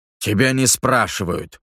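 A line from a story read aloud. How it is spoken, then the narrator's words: Coach barking. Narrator (Russian): гаркнул тренер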